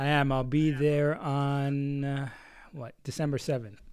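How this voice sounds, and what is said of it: Usual voice. Nothing is said of it.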